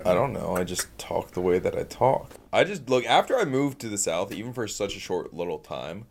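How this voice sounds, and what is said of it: Southern US accent. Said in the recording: “Why you put on a southern accent these days? ... I got a little country”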